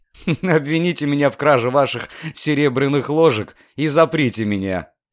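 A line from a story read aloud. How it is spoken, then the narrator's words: Laughing declaration. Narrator (Russian): смеясь, заявил Люциан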